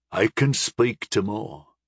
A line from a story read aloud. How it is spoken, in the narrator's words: one of the bearded men said in a shaky voice